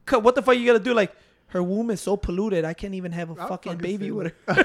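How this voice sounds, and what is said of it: Tony Montana movie character voice. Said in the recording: “I like how everybody try to do Tony's voice all the time. Anybody talks about Tony Montana, everybody try to do the voice.”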